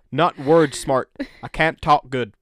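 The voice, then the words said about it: Put-on Southern American accent. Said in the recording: “I went into sort of a Southern American accent”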